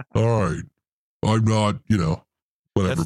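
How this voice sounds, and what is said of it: Imitates a sci-fi alien voice. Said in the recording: “You sound like a Goa'uld from Stargate. That's what you sound like.”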